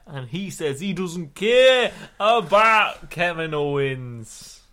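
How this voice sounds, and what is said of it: Poor put-on Scottish accent. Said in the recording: “Was that your Scottish accent?... That was really shit.”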